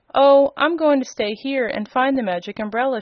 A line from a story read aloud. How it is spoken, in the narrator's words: she replied